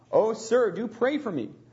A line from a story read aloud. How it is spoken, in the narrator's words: with tears she exclaimed